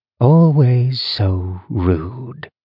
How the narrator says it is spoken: Malice murmured

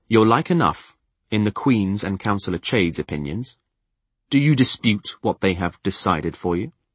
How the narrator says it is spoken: I coldly said

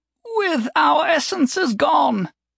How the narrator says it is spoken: the chief priest begged

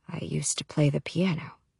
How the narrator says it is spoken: he says more quietly

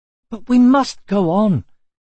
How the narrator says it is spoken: cried Atreyu

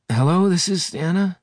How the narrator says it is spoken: she said, her voice husky with sleep

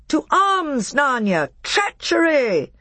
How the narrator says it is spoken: Peter shouted

